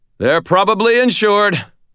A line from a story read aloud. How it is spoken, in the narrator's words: I shouted